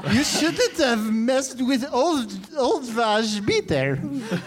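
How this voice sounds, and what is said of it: Put-on German accent. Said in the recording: “This is my German accent.”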